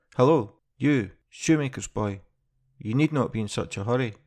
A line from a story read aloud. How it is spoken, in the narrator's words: cried the soldier to him